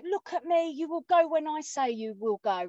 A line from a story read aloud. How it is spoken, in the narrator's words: shouted at my daughter